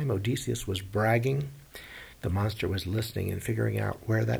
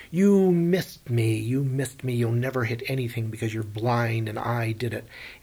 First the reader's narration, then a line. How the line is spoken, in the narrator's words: Odysseus yells